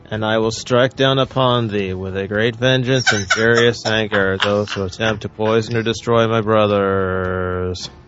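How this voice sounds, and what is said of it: Flat monotone movie-quote delivery. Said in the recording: “That was very monotone.”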